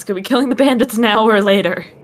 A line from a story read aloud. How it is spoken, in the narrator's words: just yell at us